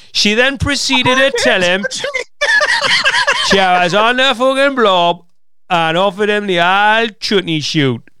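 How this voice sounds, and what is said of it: Put-on northeast English accent. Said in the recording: “let's do it in a northeast accent.”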